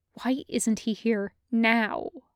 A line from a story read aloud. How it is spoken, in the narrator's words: Cody hissed